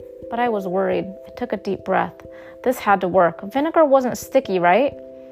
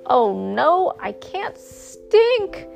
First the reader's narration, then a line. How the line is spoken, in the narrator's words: he wailed